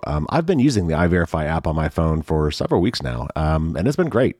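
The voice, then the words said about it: Hoarse, froggy sick voice. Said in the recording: “probably hear it in my voice. I'm a little bit sick, a little bit under the weather. So I'm a little bit froggy”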